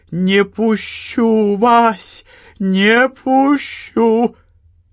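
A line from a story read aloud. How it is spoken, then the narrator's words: Hoarse frantic shrieking. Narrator (Russian): Какая-то молодка полуохрипшим голосом истошно взвизгивала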